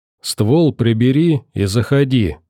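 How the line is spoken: Calm reply. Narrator (Russian): спокойно ответил я

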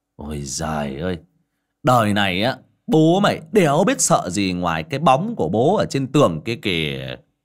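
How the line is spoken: Loud booming boast. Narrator (Vietnamese): Xiển ... oang oang rằng

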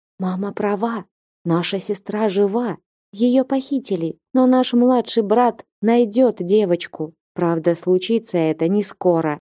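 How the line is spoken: Quiet whisper. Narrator (Russian): один из них, отведя отца в сторону, тихо прошептал

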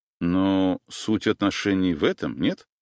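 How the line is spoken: Plain. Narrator (Russian): спросил я

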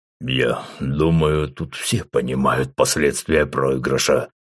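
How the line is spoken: Powerful deep bass. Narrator (Russian): решил, наконец, вмешаться в разговор Рустам своим могучим басом

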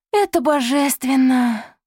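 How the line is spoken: Purring. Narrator (Russian): промурлыкала

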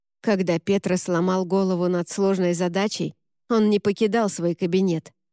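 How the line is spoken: Plain. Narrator (Russian): сказал Рене

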